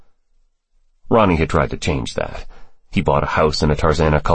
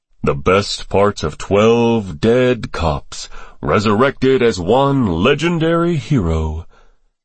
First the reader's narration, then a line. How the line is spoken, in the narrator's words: Ronnie intoned dramatically